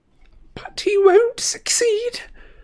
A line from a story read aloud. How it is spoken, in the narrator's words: sobbed Narcissa